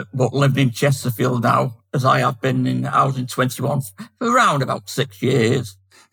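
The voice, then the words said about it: Manchester English accent. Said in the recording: “You might be able to tell that I'm from Manchester with my accent”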